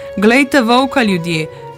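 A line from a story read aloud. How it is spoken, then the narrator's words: Villager exclaiming. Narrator (Slovenian): Eden izmed Kastovcev ga zagleda in vzklikne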